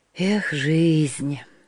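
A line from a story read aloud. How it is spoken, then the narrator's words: Sighed. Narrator (Russian): вздохнул он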